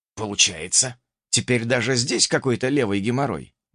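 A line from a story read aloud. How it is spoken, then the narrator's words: Grumbling mutter. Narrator (Russian): буркнул я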